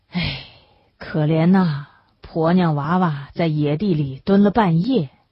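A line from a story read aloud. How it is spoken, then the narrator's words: Patients sighing. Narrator (Chinese): 旁边坐着的病号们叹息着说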